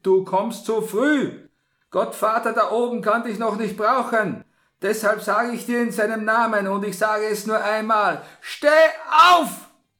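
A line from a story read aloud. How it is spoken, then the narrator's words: Priest's sharp call. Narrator (German): rief der Pater in scharfem Ton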